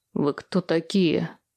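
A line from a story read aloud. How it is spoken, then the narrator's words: Menacing question. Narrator (Russian): грозно спросил Толик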